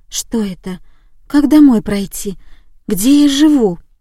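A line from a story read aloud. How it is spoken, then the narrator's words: Frightened muttering. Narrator (Russian): Она испуганно озиралась по сторонам и бормотала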